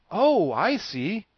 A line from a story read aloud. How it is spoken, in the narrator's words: cried the Scarecrow, greatly reassured